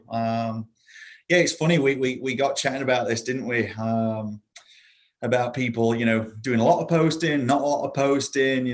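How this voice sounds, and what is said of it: British accent. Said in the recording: “You can probably already tell by the accent that although I'm live in Florida now, I am not exactly your average Florida native. So I was born and raised in the UK.”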